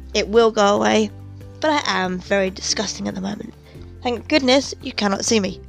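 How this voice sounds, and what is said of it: Hoarse, congested voice. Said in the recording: “I do apologise for the terrible voice, but I have a cold.”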